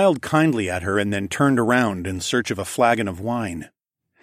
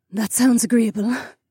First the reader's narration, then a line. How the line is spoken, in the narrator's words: said wearily